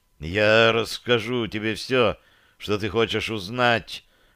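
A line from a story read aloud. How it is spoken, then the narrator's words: Strained gasp. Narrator (Russian): корчась выдохнул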